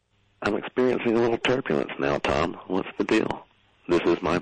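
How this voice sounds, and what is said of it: Calm, relaxing pilot-like voice. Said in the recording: “You sound like a pilot. ... you have an amazing voice ... You're making me very relaxed.”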